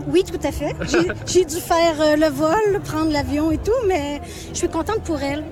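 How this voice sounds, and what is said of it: Slight Quebec French accent. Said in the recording (French): “Québec. ... vous entendez le petit accent.”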